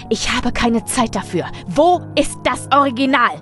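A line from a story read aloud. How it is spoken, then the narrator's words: Roaring. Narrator (German): brüllte er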